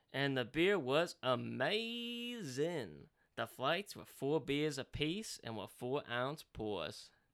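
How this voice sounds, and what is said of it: Bad put-on Southern accent. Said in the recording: “How's my southern accent? This is horrible. This is I horrible.”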